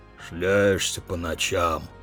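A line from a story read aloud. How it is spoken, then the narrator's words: Grumbling. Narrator (Russian): ворчал хозяин-старовер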